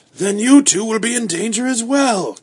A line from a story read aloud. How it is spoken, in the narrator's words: cried Mr